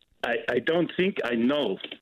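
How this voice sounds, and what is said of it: Impression of the French president. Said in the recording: “That's my impersonation of the French president”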